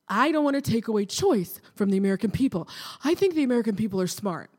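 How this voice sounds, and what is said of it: Pete Buttigieg impression. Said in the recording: “my Buttigieg impersonation.”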